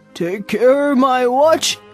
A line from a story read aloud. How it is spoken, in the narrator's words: cried Mr